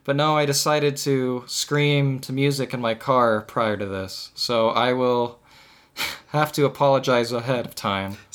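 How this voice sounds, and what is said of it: Rough, gravelly, cold-like voice. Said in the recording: “have like a cold or kind of be doing a Batman impression”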